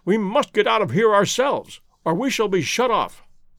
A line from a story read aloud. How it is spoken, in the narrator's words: he cried